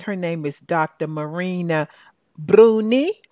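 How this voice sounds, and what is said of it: Put-on Italian accent. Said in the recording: “That's my Italian accent.”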